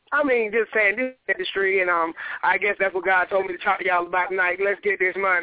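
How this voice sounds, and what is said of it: Atlanta Southern American accent. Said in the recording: “I love your accent. You say owl and cowl. I love people from Atlanta”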